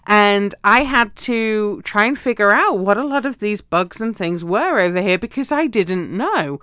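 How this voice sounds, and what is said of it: Non-American accent. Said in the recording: “you guys can tell from my accent, right? I am not from the US.”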